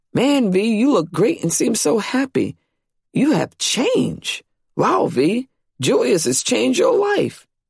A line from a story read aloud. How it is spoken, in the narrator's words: would stare and exclaim